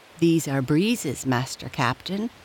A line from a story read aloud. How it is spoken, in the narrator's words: replied the shopman